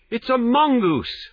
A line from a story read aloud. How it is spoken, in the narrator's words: I cried